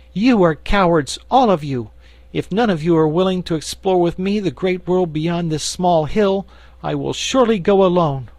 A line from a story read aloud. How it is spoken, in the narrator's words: she exclaimed impatiently